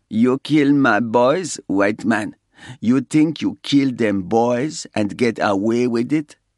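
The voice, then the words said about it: Slow, drugged-sounding accent. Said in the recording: “The guy had a slow, drugged accent. He sounded like the man from Del Monte loaded up on amphetamines.”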